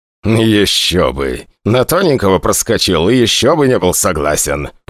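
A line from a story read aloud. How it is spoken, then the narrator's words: Grumbling. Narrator (Russian): проворчал главный штурман Углов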